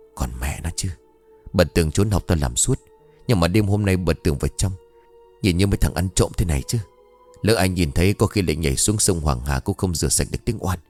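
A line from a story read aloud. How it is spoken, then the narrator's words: Trembling voice. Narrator (Vietnamese): Lâm run rẩy bảo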